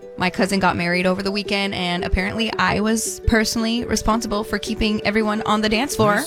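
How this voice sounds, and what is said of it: Hoarse, strained voice. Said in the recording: “why I sound like this today and I lost my voice”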